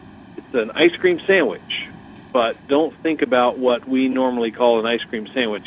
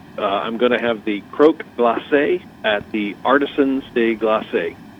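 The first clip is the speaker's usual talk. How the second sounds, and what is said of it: Put-on Southern American accent. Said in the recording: “I'm going to say it in my best Southern American accent.”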